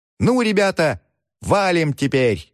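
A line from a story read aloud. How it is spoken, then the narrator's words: Shouting. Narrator (Russian): закричали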